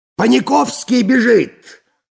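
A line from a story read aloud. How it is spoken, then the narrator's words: Shout. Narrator (Russian): закричал Балаганов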